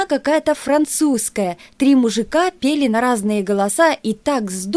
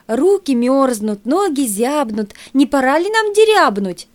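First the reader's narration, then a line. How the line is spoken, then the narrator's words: Forced cheerful exclamation. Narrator (Russian): С неверной веселостью воскликнул Банин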